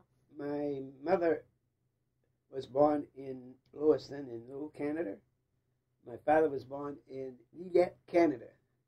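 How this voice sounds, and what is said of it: French-Canadian accent. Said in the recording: “you have a strong French background ... You can tell by my accent”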